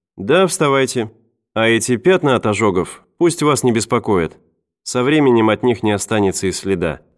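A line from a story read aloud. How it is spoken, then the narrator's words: Plain. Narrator (Russian): сказала медсестра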